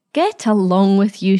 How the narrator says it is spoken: she told him sharply

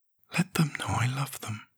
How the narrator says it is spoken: whispered Fran

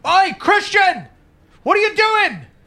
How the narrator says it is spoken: yell

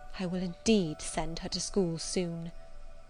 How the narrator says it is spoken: murmured Mrs

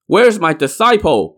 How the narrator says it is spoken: Burning Lamp shouted

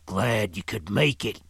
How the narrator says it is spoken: he growled

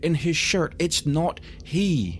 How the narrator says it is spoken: she cried

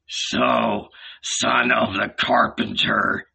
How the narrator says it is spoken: he grumbled

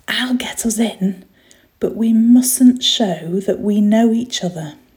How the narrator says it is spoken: whispered to him

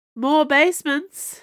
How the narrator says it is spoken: she called out

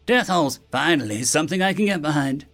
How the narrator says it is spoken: Prim said eagerly

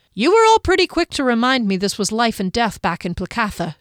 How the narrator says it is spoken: she snapped

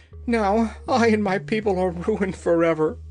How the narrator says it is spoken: he sobbed

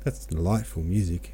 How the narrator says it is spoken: said he

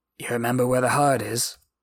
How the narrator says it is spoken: asked in a hoarse whisper

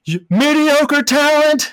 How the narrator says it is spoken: Bill Murray's yelling at him

